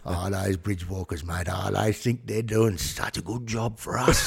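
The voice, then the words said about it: Put-on Aboriginal Australian accent. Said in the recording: “I love the voice ... It's actually not a bad accent”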